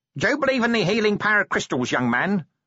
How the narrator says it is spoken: snapped the woman

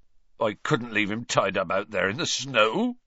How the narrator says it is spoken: choked Hagrid

